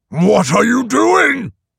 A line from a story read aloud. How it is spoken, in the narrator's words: He roared